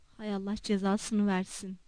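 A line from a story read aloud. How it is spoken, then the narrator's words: Muttering. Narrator (Turkish): diye mırıldandı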